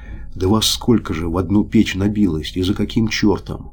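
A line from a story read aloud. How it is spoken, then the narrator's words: Sleepy quiet whisper. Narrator (Russian): Старшина с просонок шепотом потихонечку спрашивает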